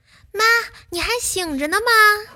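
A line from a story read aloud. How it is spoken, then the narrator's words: Calling upstairs. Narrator (Chinese): 对着楼上喊了一句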